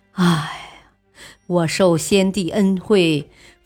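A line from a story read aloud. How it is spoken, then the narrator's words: Emotional sigh. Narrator (Chinese): 傅亮看罢诏书，激动的叹息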